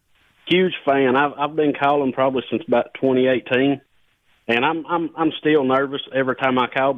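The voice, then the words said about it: Tennessee accent. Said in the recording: “Great accent. ... Well, I'm from Tennessee.”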